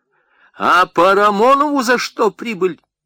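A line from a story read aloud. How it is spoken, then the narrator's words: Shout. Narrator (Russian): крикнула Соня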